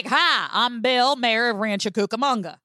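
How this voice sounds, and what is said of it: Put-on Southern accent. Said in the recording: “Why does everyone have a Southern accent?”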